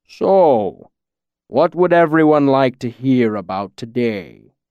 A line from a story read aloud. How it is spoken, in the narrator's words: Scarpy rumbled, his deep voice rolling out like distant thunder